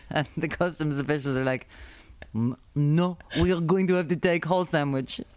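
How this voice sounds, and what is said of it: Put-on Russian accent. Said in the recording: “Why am I Russian?”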